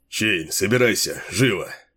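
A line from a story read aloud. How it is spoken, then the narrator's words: Curt, excited. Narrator (Russian): отрывисто сказал он, возбужденно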